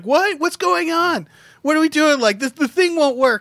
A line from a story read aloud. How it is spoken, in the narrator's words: he spends like 40 seconds screaming up at them